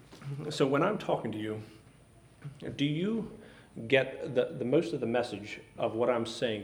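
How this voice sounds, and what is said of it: Strained, struggling voice. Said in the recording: “my voice is struggling”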